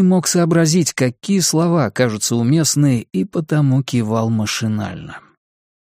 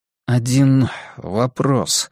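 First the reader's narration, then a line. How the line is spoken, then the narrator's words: Dry, hopeless tone. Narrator (Russian): наконец сказал я, сухо, тоном лишенным надежды и обаяния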